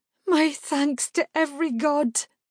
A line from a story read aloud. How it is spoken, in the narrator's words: Her voice quavered on the edge of sobs